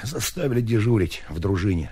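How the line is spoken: Plain. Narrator (Russian): сказал Потапов

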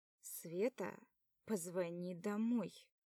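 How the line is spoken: Slow and quiet. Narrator (Russian): Прошу медленно и тихо

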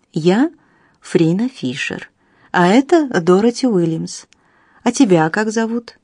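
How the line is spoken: Calm question. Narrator (Russian): спросила спокойно

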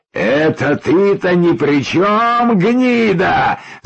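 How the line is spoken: Man's yell. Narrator (Russian): заорал мужик

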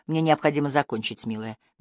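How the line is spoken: Gentle objection. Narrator (Russian): мягко возразил Апман

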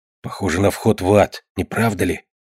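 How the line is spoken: Whisper. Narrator (Russian): прошептал Баркер

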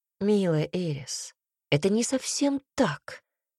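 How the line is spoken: Calm reply. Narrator (Russian): ответил Себастьян все так же спокойно

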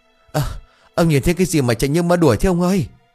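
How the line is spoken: Panting, breathless. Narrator (Vietnamese): thở hổn hển

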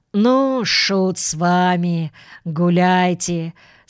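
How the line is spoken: Reconciled, calm voice. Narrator (Russian): сказал он примиренным голосом

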